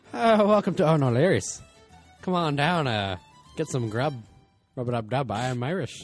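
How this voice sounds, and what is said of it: Put-on Irish accent. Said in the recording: “you have a better Irish accent, or Irish accent”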